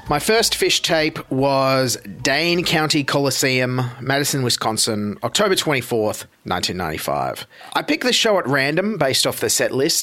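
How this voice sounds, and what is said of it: Noticeable regional accent. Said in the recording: “his accent is real”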